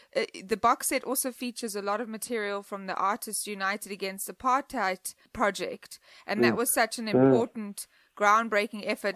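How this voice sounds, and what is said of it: South African accent. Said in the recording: “I'm from South Africa, as I'm sure you can hear my voice and my accent.”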